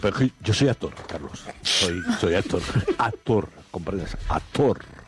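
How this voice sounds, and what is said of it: Exaggerated theatrical actor voice. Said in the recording (Spanish): “poner voz de actor”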